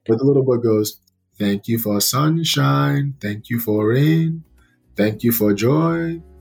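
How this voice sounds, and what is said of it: Raspy, strained voice. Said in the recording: “my voice is a little raspy right now ... my voice is gone right now”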